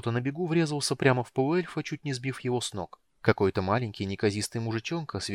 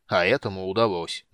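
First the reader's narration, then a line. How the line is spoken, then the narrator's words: Gloomy mutter. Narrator (Russian): мрачно пробурчал Флинт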